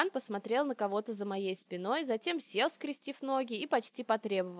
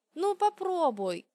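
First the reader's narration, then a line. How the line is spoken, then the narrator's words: Pleading. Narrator (Russian): взмолилась я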